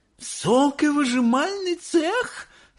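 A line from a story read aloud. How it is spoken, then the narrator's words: Shouting woman. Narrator (Russian): закричала миссис Боригард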